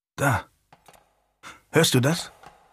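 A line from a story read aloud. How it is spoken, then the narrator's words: Low murmur. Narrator (German): raunte ihm sein Cousin, der Earl of Burton, zu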